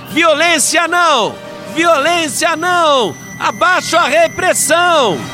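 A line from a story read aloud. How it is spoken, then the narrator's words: Crowd chanting loudly. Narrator (Portuguese): a outra multidão gritava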